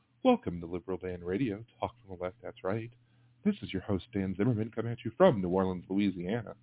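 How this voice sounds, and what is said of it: Mock NPR radio host voice. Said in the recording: “I could drop into my NPR voice”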